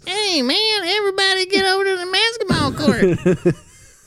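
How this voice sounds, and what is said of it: Cartoon character voice, southern accent. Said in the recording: “He had a southern accent”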